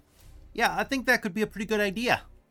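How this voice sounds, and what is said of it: East Coast American character voice. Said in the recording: “This is my voice now. ... When I'm not crying, I get that East Coast bugbear accent ... Yeah, that's what it sounds like right there.”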